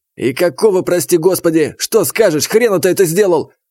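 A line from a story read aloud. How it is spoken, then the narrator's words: Yelling. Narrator (Russian): Заорал он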